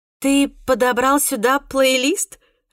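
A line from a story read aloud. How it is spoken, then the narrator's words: Surprised laughing. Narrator (Russian): Рассмеялась София, удивленная такому невероятному совпадению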